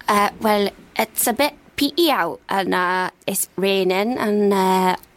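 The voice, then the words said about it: Put-on Newcastle accent. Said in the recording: “A tour around the British Isles ... and now we find ourselves in Newcastle. what's your weather like?”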